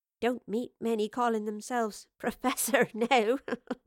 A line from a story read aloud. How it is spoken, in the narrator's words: chuckled